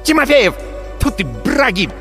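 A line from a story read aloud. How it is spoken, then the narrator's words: Barked. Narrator (Russian): рявкнула валькирия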